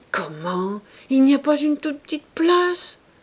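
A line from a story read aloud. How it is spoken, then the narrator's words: Feverishly curious exclamation. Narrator (French): s'écria Madame Coreur, à laquelle ces détails donnaient une fièvre de curiosité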